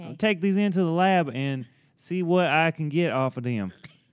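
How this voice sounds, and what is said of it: Put-on accent. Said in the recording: “I like this. I like this accent. ... I don't think I've ever done that one before. ... Yeah, it's good.”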